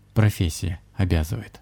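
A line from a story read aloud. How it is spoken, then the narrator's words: Evasive reply. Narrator (Russian): уклончиво ответил шаман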